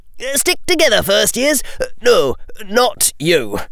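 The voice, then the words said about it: High-pitched character voice. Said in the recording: “he said in a high voice.”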